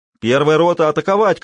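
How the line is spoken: Shouted. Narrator (Russian): крикнул Данилов

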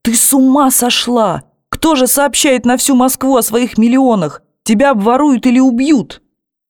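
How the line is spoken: Shouting. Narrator (Russian): закричала

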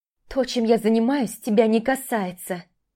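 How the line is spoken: Growling girl. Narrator (Russian): вновь прорычала девушка

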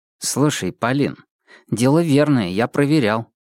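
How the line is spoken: Quiet, persuasive. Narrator (Russian): все так же тихо и убедительно продолжил Зоркий

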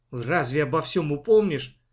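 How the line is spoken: Grumbling. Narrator (Russian): проворчала мама

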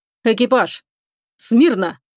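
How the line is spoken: Firm commanding order. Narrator (Russian): твердым командирским голосом приказал он

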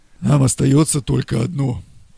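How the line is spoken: Hoarse rasp. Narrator (Russian): прохрипел толстый судья

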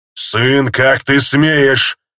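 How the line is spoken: Roared. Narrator (Russian): взревел Кхир

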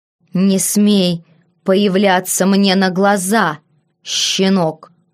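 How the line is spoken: Snarling creature. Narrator (Russian): прорычало уже полуобращенное существо

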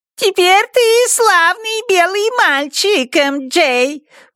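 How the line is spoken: Squeaky imitated voice. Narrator (Russian): пропищал Уолли голосом Дрека

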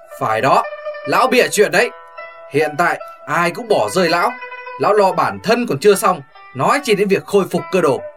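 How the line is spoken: Raised voice, agreeing. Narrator (Vietnamese): Hồng tướng công cao giọng phụ họa

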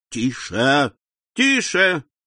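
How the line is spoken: Shouted from audience. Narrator (Russian): крикнули в публике

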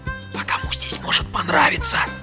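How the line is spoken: Whispered reply. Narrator (Russian): тоже шепотом ответил Арнольд

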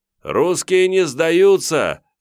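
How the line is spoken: Shouted reply. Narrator (Russian): крикнул я в ответ

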